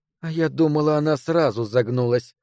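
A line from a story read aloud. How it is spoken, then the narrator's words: Girl sneering through teeth. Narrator (Russian): с усмешкой процедила девочка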